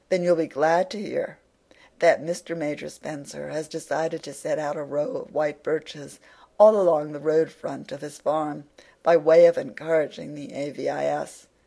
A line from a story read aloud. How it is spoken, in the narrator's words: said Gilbert